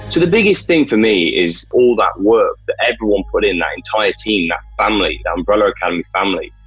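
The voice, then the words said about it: British accent. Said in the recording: “with his British accent.”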